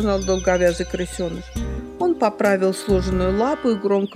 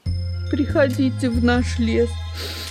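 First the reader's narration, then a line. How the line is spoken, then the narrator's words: Moaned. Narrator (Russian): простонал второй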